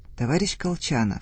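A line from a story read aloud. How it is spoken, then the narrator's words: Quiet voice. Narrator (Russian): заговорил Одинец тихим голосом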